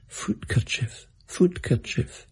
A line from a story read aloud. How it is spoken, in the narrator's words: whispering